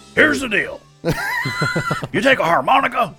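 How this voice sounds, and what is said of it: Imitates another person's voice. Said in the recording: “not a bad JJ alter ego impersonation”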